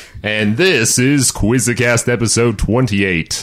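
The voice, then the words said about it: Deep radio announcer voice. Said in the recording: “The radio voice. ... Are you, Barry White?”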